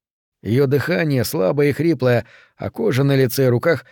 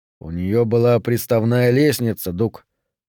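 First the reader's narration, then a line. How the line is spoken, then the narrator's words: Calm question. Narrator (Russian): спросил он спокойно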